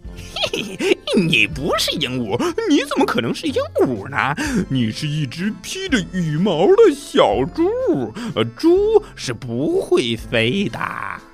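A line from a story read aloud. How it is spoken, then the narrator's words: Laughing loudly. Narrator (Chinese): 猴子……大笑着说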